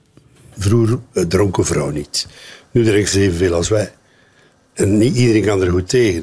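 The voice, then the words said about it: Mumbled speech, strong West Flemish accent. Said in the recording (Dutch): “hij praat een beetje binnensmonds eh, met een sterk West-Vlaams accent”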